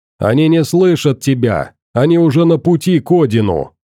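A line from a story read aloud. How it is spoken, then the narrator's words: Snide shout. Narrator (Russian): Ехидно крикнул я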